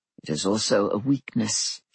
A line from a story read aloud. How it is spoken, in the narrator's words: he said in a low voice